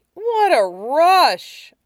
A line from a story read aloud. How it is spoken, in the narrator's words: Mike sighed